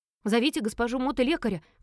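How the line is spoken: Shout. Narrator (Russian): крикнула я

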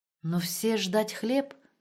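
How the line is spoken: Confused mutter. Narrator (Russian): растерянно пробормотал Штребль

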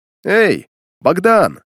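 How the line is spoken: Shout. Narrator (Russian): Крикнул я

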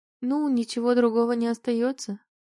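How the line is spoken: Timid, smiling. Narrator (Russian): робко улыбнулась ему

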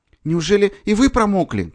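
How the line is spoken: Shouted. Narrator (Russian): крикнула она ему

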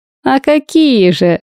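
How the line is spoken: Loud laughter. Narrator (Russian): расхохотался Марк

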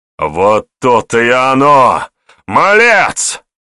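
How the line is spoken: Barking. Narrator (Russian): Рявкнул воевода

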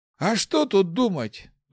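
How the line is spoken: Sigh. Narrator (Russian): вздохнул отрекшийся

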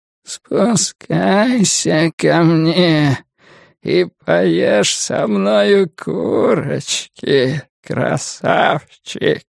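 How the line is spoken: Cracked dying creature's whisper. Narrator (Russian): прошептала тварь над треснутым, умирающим голосом

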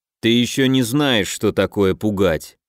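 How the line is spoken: Grim curt remark. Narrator (Russian): мрачно бросил Людвиг

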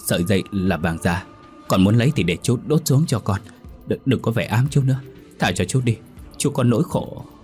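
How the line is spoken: Panicked stammering. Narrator (Vietnamese): Hoảng sợ, tên Đô miệng lắp bàng lắp bắp

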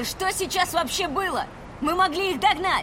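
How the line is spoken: Shout. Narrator (Russian): Крикнула Ри

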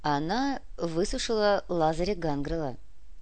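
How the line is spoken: Calm statement. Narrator (Russian): спокойно сообщил комиссар

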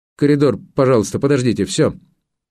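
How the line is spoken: Stern command. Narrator (Russian): строго велел

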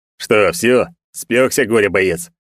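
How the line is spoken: Mocking question. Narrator (Russian): Насмешливо поинтересовался Эльдар

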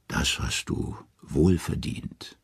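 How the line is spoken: Gentle. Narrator (German): sanft sagt sie

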